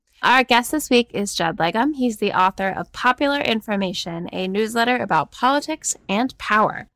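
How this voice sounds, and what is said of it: Congested, sniffly voice. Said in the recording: “I've got a bit of a cold, so please forgive my sniffling.”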